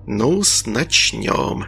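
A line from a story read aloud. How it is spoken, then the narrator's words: Whisper. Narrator (Russian): прошептал гений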